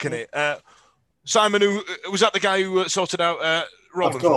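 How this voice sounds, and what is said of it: Usual voice. Nothing is said of it.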